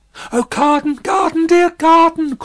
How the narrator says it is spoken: cried little Lucy, in a burst of grief

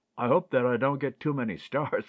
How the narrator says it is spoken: laughed Ted

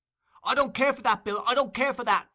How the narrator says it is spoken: screamed the girl, struggling violently with the man

